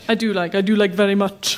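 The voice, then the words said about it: Put-on Indian accent. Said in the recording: “Why am I doing an Indian accent?”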